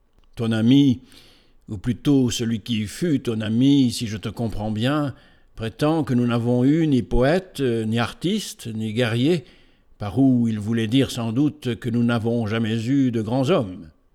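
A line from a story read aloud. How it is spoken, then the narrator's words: Forceful, masculine-sounding exclamation. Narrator (French): s'écria avec une énergie qui donnait à sa voix quelque chose de masculin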